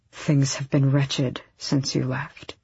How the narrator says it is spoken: Arobin said quietly

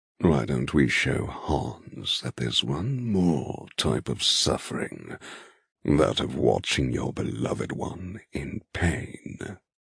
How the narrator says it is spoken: Eamon murmurs in my ear

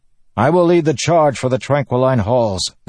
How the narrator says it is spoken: the man shouted

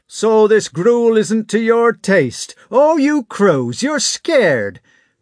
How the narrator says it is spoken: they shouted

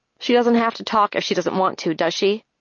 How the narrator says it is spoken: Claire sighs

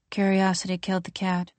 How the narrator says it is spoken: in an odd, toneless voice says

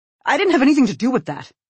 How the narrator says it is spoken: Larry says sharply

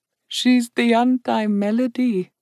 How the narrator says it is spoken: Indali murmured

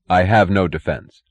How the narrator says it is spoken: his voice inflectionless and peculiarly clear, Hank Reardon answered

